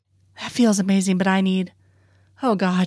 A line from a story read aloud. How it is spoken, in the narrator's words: she pants